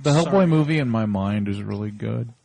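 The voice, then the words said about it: Imitates another person's voice. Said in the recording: “my Scott Pierce impersonation”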